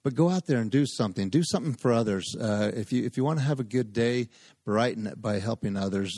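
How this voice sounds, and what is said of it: Monotone speaking voice. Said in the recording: “monotone voice of mine”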